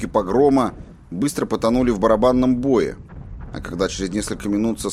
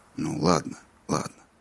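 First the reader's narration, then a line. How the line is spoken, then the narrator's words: Soft. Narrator (Russian): мягко сказал Роланд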